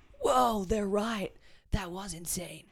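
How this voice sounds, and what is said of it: Put-on American accent. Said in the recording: “That was my like a little American accent there.”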